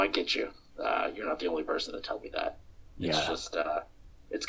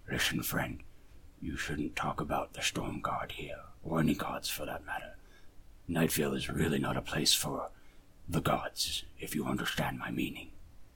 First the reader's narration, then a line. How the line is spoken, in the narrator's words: Gruul's face turn kind of grim, and he mutters, like, as quietly as he can